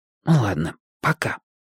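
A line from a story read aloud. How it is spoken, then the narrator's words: Whisper. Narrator (Russian): шепнул я Чибису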